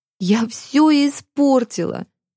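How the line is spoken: Sobbing. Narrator (Russian): всхлипывала

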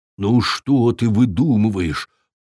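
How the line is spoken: Embarrassed grumbling. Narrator (Russian): пробурчал викинг, смущенный своим побегом

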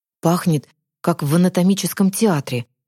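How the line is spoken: Boy whispering. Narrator (Russian): шепнул мальчишка

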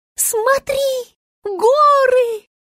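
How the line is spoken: Squealing into ear. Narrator (Russian): визжала она зайцу в ухо

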